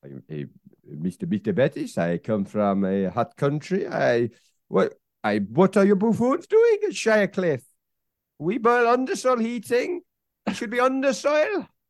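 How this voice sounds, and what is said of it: Put-on foreign accent, veering Welsh-Dutch. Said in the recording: “I can't work out where that accent is. It occasionally veers towards Welsh. ... Dutch. ... I'm going to say the lowlands of Europe.”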